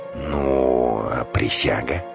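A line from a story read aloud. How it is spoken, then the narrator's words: Glum drawl. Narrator (Russian): Вороных уныло протянул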